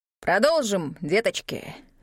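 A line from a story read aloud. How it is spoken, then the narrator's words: Growl. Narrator (Russian): рыкнул Рокрит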